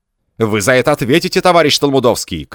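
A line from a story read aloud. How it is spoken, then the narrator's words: Shouting. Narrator (Russian): крикнул длиннополый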